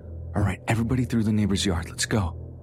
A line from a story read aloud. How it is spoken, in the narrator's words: I whispered loudly